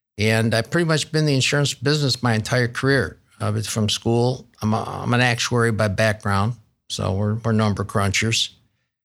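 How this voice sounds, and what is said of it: Upstate New York twang. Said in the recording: “some of your listeners with a good ear will still hear that upstate New York twang.”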